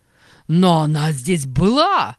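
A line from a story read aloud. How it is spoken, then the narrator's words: Shouted. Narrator (Russian): закричал Ансельма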